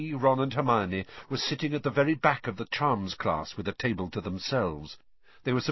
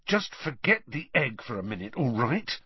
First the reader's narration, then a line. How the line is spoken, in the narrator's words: Harry hissed